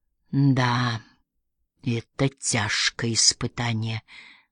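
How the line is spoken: Confused mumbling. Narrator (Russian): забормотал Пуаро, решительно ничего не понимая

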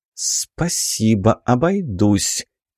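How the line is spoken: Through gritted teeth. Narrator (Russian): цедит сквозь зубы Сора

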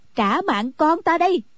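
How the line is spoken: Crying out. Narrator (Vietnamese): Anh cô kêu lên

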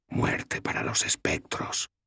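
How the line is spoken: Whispered. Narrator (Spanish): susurró

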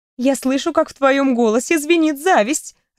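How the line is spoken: Laughing loudly. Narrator (Russian): расхохоталась

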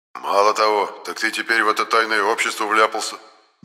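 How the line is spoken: Displeased tone. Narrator (Russian): недовольным тоном сказал Енох

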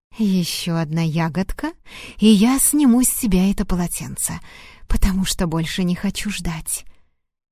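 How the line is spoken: Quiet whisper. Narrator (Russian): тихо прошептала

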